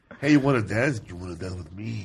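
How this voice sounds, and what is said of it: Imitates another person's voice. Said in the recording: “Charles Bronson impersonation ... his sister ... Charlene Bronson ... he'll be like this”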